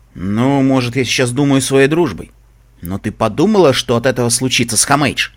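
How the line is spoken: Rough, rude tone. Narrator (Russian): грубо добавил

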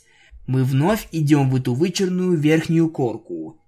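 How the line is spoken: Sighing. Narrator (Russian): я вздохнула

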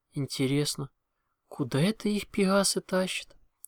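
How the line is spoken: Sighing. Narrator (Russian): вздохнула

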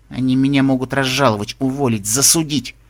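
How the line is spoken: Through gritted teeth. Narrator (Russian): процедила сквозь зубы Эллен Флайс

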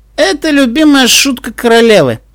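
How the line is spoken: Declaring after laughter. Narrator (Russian): отсмеявшись, заявил Карстен

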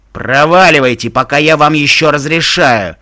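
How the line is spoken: Impatient barking. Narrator (Russian): Явно теряя терпение, рявкнул он

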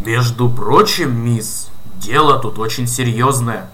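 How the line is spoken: Stern policeman. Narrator (Russian): строго сказал полицейский

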